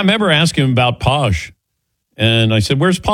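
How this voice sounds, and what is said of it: Usual voice. Nothing is said of it.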